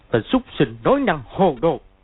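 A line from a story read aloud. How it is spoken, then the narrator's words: Shout. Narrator (Vietnamese): quát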